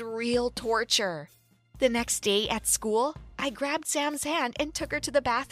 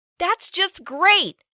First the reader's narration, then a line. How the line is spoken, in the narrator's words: I complained loudly